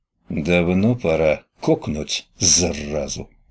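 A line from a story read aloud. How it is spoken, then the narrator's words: Angry mutter. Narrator (Russian): зло буркнул Витек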